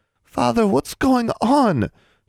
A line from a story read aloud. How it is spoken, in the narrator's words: she pleaded